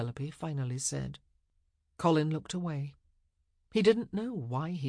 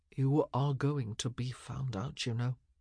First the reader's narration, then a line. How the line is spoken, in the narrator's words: he said, his voice low and controlled